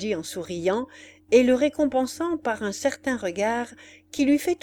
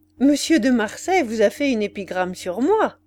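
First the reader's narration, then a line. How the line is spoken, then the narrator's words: Laughing. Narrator (French): J'ai dit alors, en riant, à Macumer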